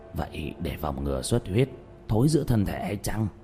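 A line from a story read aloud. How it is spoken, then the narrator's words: Whispered question. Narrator (Vietnamese): Lão Quách thì thầm hỏi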